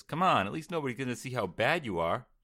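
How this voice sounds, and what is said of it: Put-on Brooklyn or Boston accent. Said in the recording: “I like your little Brooklyn twang on there... was that Boston? What is that?... Boston”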